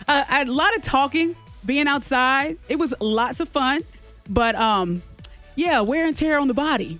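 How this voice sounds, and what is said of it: Slightly hoarse, losing her voice. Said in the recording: “I'm starting to lose my voice. ... I guess I do hear it a little bit.”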